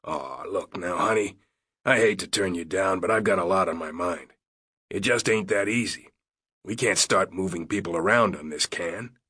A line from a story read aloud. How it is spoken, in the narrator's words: Karen's face retained a soft sweetness, and her voice showed no anger